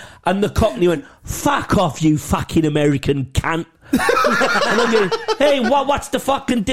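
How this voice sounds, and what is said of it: Usual voice. Nothing is said of it.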